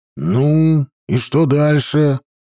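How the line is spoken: Impatient growl. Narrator (Russian): нетерпеливо зарычал я

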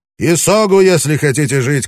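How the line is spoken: Shouted. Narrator (Russian): крикнул он

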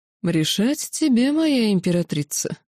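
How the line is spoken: Mocking. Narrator (Russian): насмешливо произнес кесарь

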